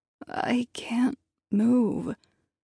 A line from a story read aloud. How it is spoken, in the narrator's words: I croaked over the din of destruction